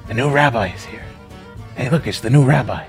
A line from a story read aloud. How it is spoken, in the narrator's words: I hear all the residents whispering